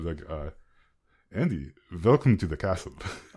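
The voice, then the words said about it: Subtle vampire lord character accent. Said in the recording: “nailing my Strahd accent ... can we get a line in Strahd's voice? ... this is very subtle”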